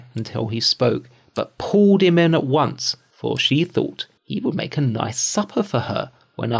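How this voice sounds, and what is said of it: Usual voice. Nothing is said of it.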